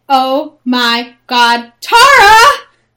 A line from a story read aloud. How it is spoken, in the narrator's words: Keisha exclaimed